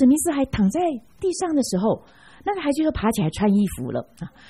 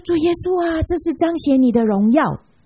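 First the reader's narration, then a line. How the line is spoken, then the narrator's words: Child shouting loudly. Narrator (Chinese): 那个孩子就高声喊，他说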